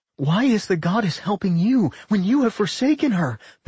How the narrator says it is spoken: Millie gasped

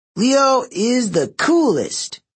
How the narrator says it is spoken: he shouted

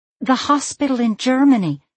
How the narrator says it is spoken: Sloane said impatiently, raising her voice

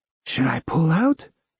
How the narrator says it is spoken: whispered

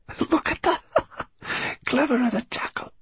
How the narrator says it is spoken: whispered Farid

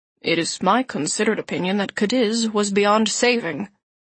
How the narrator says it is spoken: Christian said calmly

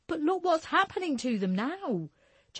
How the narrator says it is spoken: Jessie cried so loud

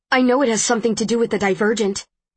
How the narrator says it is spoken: I blurt out

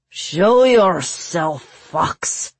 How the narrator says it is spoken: he roared

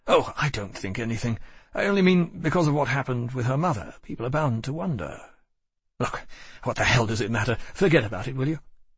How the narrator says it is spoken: He said hastily

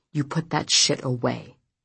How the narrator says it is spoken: murmured

